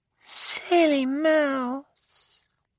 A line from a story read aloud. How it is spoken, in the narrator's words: Nicolina purred